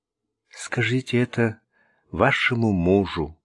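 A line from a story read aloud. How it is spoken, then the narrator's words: Sad remark. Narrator (Russian): печально заметила Ренни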